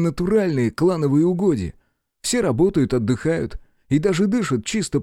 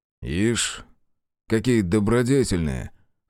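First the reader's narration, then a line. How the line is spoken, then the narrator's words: Snorting, skeptical. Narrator (Russian): хмыкнул я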